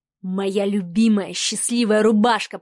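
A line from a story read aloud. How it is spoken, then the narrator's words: Hoofed god growling. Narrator (Russian): прорычал парнокопытный бог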